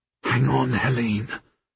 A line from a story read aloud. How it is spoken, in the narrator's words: I whisper